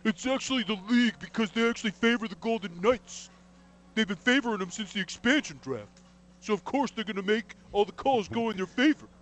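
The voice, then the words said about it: Weird angry hockey fan voice. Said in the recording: “I'm going to play the role of angry hockey fan ... weird voice”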